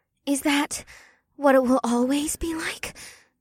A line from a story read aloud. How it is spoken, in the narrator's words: Una asked in a breathless voice